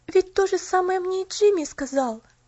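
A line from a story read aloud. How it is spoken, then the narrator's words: Exclamation. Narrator (Russian): воскликнула она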